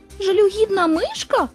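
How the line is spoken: Indignant exclamation, small animal. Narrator (Ukrainian): обурено вигукнула тваринка

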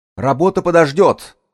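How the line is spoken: Shout. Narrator (Russian): выкрикнул Энтони

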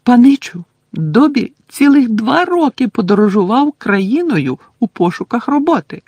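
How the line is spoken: Squeaky voice. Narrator (Ukrainian): запищав Добі

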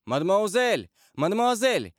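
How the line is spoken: Distant shout through trees. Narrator (Russian): кричал чей-то голос из-за деревьев

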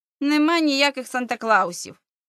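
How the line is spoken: Sniffling grumble. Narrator (Ukrainian): шморгнув носом і буркнув Бобі

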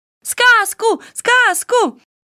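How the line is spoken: Children shouting. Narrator (Russian): закричали дети

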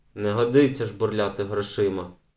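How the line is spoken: Stern reproach, grandmother. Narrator (Ukrainian): суворо дорікнула бабуся

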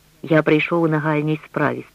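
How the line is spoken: Abbot's calm reply. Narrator (Ukrainian): спокійно відказав абат Фожа

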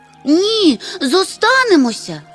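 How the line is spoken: Shouting in unison. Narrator (Ukrainian): закричали в один голос мумітроль, крихітне звірятко і тюльпанна

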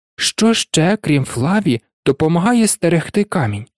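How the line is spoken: Hissing. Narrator (Ukrainian): Знову засичав Гегріт

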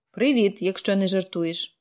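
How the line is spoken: Grumbled. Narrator (Ukrainian): буркнув

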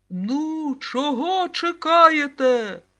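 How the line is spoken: Short man shrieking. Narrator (Ukrainian): заверещав коротун

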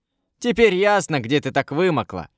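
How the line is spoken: Boy laughing. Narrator (Russian): засмеялся мальчишка

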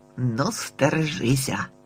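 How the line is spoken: Grumbled. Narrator (Ukrainian): буркнув він, врешті-решт

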